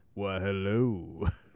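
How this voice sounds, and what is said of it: Posh British BBC accent. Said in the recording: “he's got the BBC accent.”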